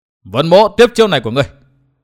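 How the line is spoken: Hurried loud shout. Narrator (Vietnamese): Vân Thiên Nhạc vội quát lớn

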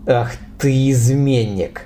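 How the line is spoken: Furious, through teeth. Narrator (Russian): процедил Роберт, яростно

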